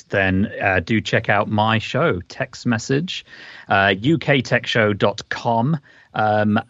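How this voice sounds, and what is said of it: Speaker's own accent. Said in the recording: “the sound of my accent”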